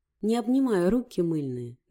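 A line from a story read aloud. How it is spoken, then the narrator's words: Laughing. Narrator (Russian): засмеялась Лиза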